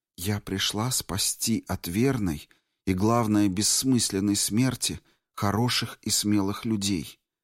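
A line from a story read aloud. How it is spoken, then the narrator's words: Barely a whisper. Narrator (Russian): она едва шептала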